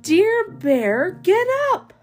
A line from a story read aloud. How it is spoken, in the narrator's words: Mouse shouts in his ear